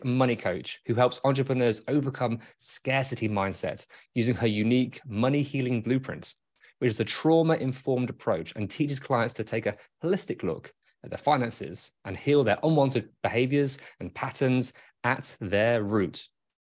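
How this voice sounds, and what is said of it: British BBC-style accent. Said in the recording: “read in your accent ... This British accent ... It does have that BBC accent ... That sounds very professional”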